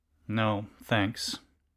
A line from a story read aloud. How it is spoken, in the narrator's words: the defendant muttered